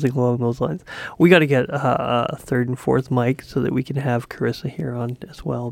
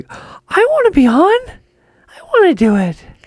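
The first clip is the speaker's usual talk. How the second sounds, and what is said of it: Imitates another person's voice. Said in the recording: “That's my impression of Carissa... I've heard you use that voice before and she doesn't sound like that at all.”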